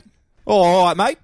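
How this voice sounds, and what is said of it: Put-on Australian accent. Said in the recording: “With the Australian accent ... redubbing movies in the accents of the world”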